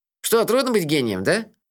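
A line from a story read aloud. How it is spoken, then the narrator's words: Snide question. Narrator (Russian): ехидно спросил Мелифара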